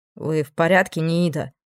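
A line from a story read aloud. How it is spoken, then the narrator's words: Plain. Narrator (Russian): спросил охранник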